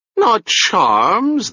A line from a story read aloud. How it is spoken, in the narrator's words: the man whined, shrinking away from him